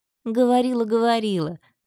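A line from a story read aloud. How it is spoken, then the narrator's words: Laughing. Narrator (Russian): рассмеялась Диана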